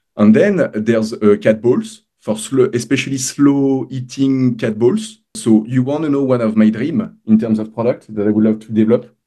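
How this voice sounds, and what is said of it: Strong foreign accent. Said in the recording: “my accent is strong”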